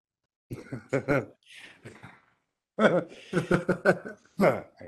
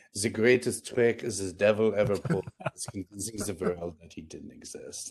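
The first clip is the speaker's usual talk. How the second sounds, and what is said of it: Attempted French accent, sounding French-German. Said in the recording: “the quote with a French accent ... That was kind of French German, I guess.”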